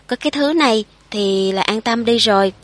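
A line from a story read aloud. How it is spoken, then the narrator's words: Chuckling, lowered voice. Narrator (Vietnamese): Bà ta khà khà cười lên, nà mà hạ giọng nói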